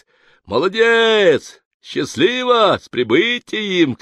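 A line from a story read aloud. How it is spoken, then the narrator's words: Shouting crowd. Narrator (Russian): кричали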